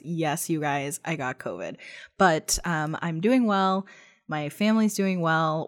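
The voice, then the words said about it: Rough, strained voice. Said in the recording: “losing my voice, and it can get a little rough ... if you hear it in my voice”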